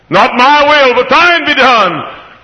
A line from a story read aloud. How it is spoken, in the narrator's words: cried the Father's own Son